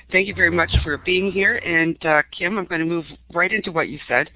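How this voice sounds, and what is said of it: Sick-sounding voice, like a cold. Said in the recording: “apologize for my voice ... I hope I don't come into a coughing spurt ... gave me a virtual cold ... be patient with what I sound like”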